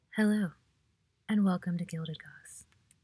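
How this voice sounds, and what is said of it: Calm public-radio announcer voice. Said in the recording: “That's my NPR voice.”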